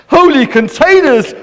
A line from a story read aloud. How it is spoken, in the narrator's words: cried Herbert